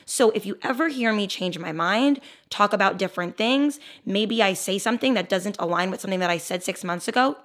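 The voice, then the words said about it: Raspy, hoarse voice. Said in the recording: “my raspy voice today. I lose my voice every summer ... the raspiness”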